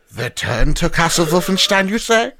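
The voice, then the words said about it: Put-on German accent. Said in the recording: “the German accent. That is very offensive.”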